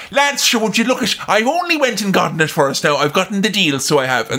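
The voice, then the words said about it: Broad Irish accent impression. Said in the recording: “she thought her Irish accent”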